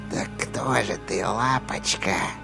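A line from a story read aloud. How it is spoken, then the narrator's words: Whisper. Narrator (Russian): прошептала Рия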